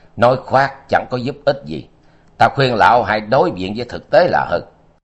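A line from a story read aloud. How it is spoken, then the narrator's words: Cold, faint laugh. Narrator (Vietnamese): Trác Văn Bình cười nhạt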